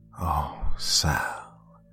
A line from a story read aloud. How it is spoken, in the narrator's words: mumbled in stark terror